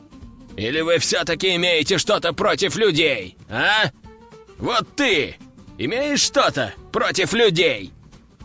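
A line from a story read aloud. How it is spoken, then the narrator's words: Roaring. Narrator (Russian): Взревел Игорь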